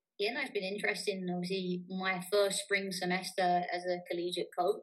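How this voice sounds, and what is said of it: English accent. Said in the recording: “coming obviously from England, for those who couldn't tell from your accent”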